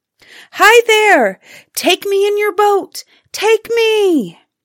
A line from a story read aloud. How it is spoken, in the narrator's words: the woman kept shouting